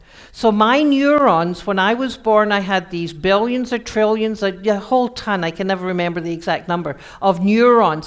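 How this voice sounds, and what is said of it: Scottish accent. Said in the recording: “my Scottish accent ... I have a Scottish accent”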